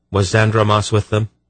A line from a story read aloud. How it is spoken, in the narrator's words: Geryon asked quickly